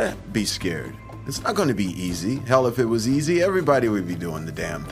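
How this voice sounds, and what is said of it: Usual voice. Nothing is said of it.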